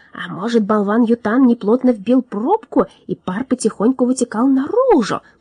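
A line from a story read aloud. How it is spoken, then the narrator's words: Whisper. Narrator (Russian): прошептал он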